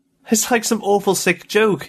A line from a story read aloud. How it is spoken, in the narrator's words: he cried to Faber